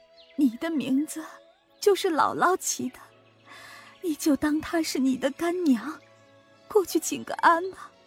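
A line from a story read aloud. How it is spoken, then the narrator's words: Crying. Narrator (Chinese): 凤姐一面哭一面对乔姐说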